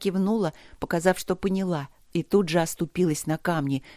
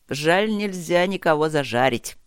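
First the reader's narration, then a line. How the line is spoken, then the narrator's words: Chuckling. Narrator (Russian): хохотнул Чет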